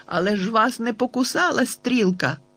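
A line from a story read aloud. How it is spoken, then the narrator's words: Exclaiming. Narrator (Ukrainian): вигукнув я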